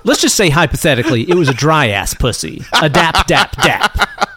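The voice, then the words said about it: Ben Shapiro impression. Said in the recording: “You going into Ben Shapiro mode? ... Uncle Ben Shapiro over here. ... doing his Ben Shapiro impression again.”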